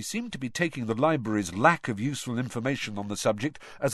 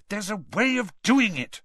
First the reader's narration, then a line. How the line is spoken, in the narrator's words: Hermione said crossly